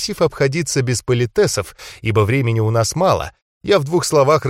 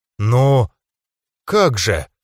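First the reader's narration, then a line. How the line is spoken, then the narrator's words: Bewildered. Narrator (Russian): растерянно проговорил Айгиль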